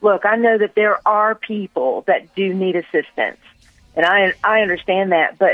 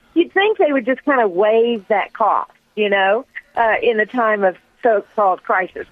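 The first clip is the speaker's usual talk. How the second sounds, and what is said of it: Sarcastic tone. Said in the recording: “I said that sarcastically.”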